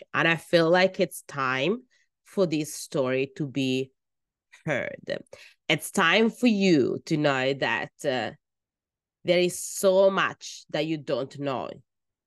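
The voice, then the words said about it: Italian accent in English. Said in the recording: “As you can tell maybe from my accent, my first language is actually Italian.”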